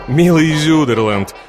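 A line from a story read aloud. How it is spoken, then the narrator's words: Laughing. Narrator (Russian): молвит Екатерина, продолжая смеяться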